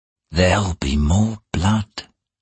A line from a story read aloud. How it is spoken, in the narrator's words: he whispered aloud